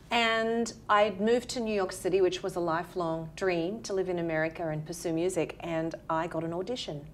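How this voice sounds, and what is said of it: Australian accent. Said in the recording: “as you can tell from my accent, from Australia”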